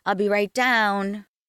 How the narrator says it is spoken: called out

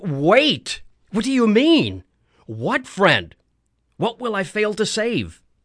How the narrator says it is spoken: I cried

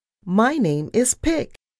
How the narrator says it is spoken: mouse yelled

